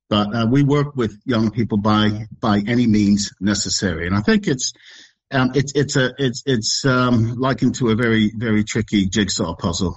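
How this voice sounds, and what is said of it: American accent. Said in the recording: “You could probably hear from my accent, I'm from the state”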